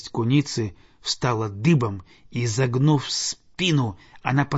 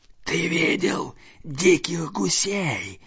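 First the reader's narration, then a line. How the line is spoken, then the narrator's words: Hissing. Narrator (Russian): прошипела она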